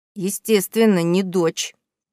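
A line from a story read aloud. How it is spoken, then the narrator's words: Through gritted teeth. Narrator (Russian): процедила сквозь зубы Дафи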